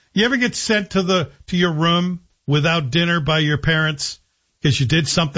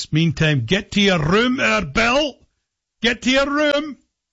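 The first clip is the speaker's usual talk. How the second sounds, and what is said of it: Scottish accent. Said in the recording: “maybe it only happened to me in a Scottish accent.”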